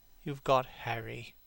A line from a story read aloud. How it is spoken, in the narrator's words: said Hallward sadly